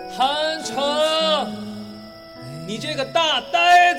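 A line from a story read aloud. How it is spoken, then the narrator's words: Shout. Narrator (Chinese): 喊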